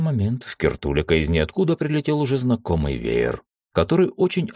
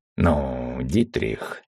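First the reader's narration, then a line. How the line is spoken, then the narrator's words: Angry exhale. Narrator (Russian): сердито выдохнул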